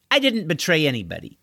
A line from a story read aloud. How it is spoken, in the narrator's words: said Deirdre